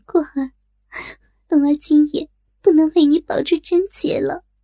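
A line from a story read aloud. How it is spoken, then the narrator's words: Silent inner sigh. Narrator (Chinese): 暗叹一声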